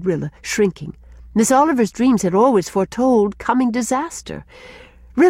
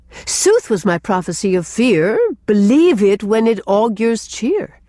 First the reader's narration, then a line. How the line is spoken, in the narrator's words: quoted Gertrude, almost gaily